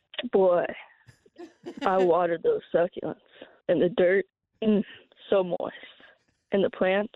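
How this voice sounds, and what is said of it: Put-on Southern twang. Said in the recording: “gets into character ... Did she throw in a little southern twang there too?”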